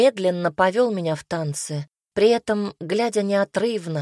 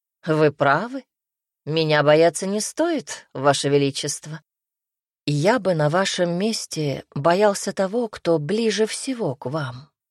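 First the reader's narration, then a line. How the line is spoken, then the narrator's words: Snorting. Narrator (Russian): хмыкнул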